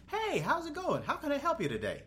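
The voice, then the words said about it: Fake cheerful customer-service voice. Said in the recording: “I don't like having that fake voice.”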